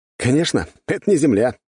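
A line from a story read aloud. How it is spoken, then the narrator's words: Laughing. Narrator (Russian): рассмеялся я от такого заявления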